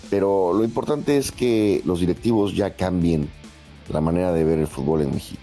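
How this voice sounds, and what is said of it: Rich announcer-style voice. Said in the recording (Spanish): “Tiene voz de locutor ... qué chingona voz tiene, güey, envidiable”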